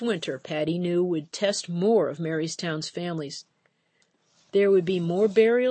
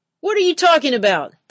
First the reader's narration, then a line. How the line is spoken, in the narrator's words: the fisherman yelled